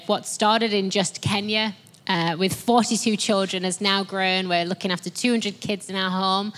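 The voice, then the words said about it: Strong, thick, broad accent. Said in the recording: “my accent's far stronger than Matthew's ... I can go really thick and broad sometimes with my accent.”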